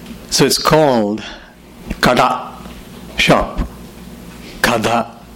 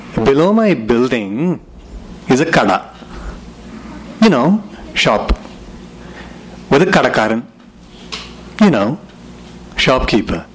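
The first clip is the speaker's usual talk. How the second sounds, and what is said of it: Put-on Indian accent. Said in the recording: “I'm going to try the Indian accent now. Let's see how it goes.”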